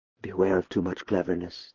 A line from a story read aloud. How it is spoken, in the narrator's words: Dietrich whispered in return